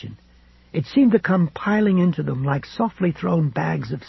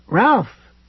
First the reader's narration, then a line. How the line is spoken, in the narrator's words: Fay exclaimed